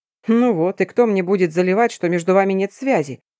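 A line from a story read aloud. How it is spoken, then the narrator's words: Chuckling. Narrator (Russian): хохотнул Марк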